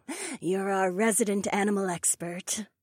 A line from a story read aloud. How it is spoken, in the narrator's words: Ryan chuckled good-naturedly